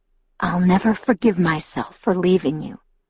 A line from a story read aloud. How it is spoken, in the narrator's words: he whispered